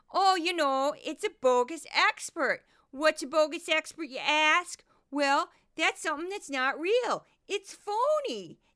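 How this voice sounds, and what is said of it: Goofy put-on Midwestern accent. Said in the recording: “here's the voice ... This is my Midwestern accent, and this is the one I do when I do the bogus expert ... that's my goofy voice”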